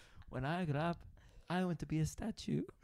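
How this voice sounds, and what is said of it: Put-on Russian accent. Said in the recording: “Why did you do it in that accent? ... He's from Russia. ... Is he Borat?”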